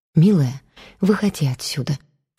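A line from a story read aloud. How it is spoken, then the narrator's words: Quiet distant whisper. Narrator (Russian): тихо, словно издалека шепнула Зоя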